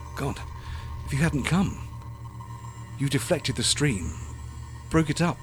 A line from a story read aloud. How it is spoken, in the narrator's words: he whispered